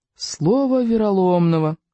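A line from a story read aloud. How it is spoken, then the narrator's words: Moaning. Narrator (Russian): простонал Рыбьенок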